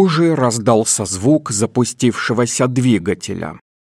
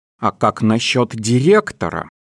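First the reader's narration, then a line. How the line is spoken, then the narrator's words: Plain. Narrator (Russian): спросила Джин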